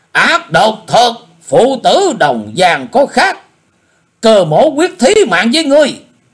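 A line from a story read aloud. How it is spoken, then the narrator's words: Furious loud shout. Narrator (Vietnamese): Cơ Hùng thấy thế, hai mắt đổ lửa quát lớn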